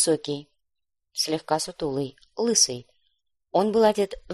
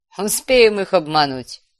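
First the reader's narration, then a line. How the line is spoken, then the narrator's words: Laughing. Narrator (Russian): рассмеялся Азактот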